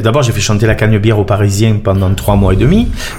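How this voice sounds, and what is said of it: Marseille French accent. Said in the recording (French): “tu as l'accent marseillais”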